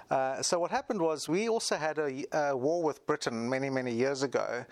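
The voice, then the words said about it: British accent. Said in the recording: “it's obvious that you have a bit of an accent ... the British kind of accent”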